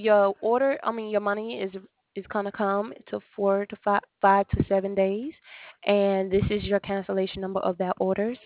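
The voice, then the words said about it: Speaks with an accent. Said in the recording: “you just have an accent”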